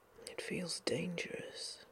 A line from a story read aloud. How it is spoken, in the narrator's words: he whispered finally